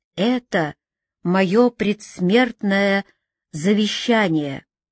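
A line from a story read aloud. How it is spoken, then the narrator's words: High sharp slow voice. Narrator (Russian): высокий, резкий голос, медленно и проникновенно сказавший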